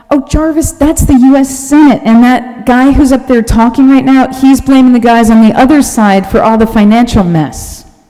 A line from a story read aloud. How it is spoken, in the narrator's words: someone yells back